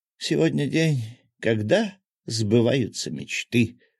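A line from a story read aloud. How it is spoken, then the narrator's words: Breathless exhale. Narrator (Russian): выдохнула Василиса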